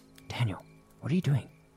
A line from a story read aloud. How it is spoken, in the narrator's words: Thinking it was Daniel, I whispered